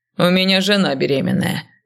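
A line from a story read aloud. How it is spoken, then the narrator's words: Grumbling. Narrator (Russian): проворчал Артем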